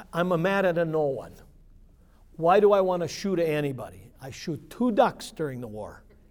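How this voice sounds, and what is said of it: Put-on Italian accent. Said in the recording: “He had beautiful Italian accent.”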